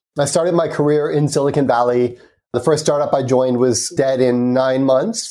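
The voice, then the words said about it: American accent. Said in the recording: “you can probably tell from my accent, I'm American.”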